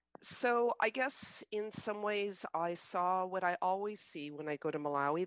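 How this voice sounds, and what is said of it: Unwell-sounding, affected voice. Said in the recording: “I'm recovering from COVID from the trip, so excuse the voice.”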